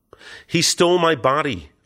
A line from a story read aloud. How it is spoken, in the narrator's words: I cried, attempting to squirm free